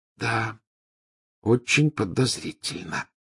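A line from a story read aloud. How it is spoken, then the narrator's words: Near whisper. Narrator (Russian): почти прошептала Гермиона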